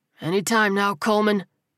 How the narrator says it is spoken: the captain grunted

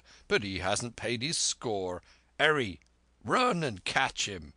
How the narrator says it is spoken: cried Silver

